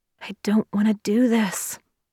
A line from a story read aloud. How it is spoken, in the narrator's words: she whispered